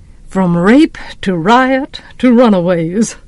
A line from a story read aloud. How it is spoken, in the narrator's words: we heard him chuckle